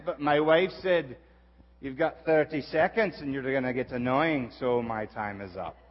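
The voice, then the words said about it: Put-on Scottish accent. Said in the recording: “I love doing a Scottish accent ... clapping for my accent”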